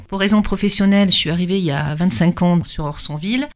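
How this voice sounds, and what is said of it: Non-local French accent. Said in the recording (French): “je ne suis pas du tout native du secteur, ça s'entend avec mon accent.”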